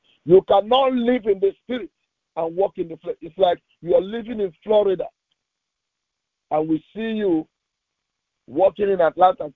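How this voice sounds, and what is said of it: Noticeable accent, possibly hard to follow. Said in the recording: “sometimes my accent might confuse you”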